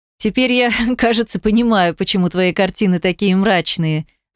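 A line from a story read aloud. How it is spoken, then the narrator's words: Laughing. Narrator (Russian): засмеялся Луиджи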